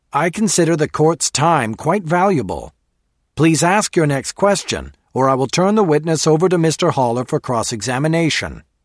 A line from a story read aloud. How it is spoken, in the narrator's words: the judge barked